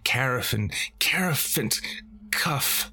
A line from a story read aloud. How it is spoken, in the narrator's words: she cried